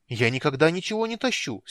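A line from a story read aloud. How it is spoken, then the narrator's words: Indignant exclamation. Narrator (Russian): с негодованием воскликнул Тас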